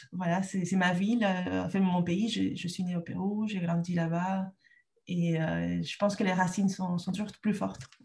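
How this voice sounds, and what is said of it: Peruvian accent in French. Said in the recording (French): “le Pérou, voilà, vous l'avez bien compris, j'ai toujours mon accent”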